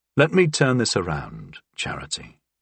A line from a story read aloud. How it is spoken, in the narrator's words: I said, interrupting her gently